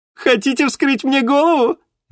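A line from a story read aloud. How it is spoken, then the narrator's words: Laughing. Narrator (Russian): рассмеялась Алиса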